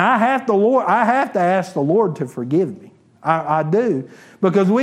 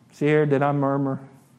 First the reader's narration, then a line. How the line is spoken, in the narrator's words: I murmured